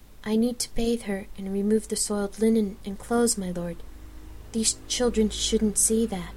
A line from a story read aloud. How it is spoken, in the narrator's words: whispered under her breath